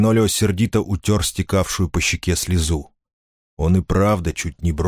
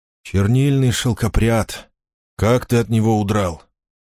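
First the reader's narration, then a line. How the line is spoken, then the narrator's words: Pained voice. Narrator (Russian): В голосе принца слышалась боль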